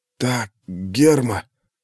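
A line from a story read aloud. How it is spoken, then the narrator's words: Hoarse wheezing. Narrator (Russian): продолжал хрипеть Архий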